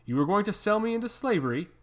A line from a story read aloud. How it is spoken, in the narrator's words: I exclaimed, unable to hold my fury